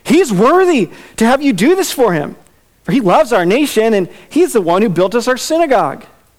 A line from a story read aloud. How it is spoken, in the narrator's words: they pled with him earnestly, saying